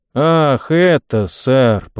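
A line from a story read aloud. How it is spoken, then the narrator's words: Drawled. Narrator (Russian): протянул рыжий Джон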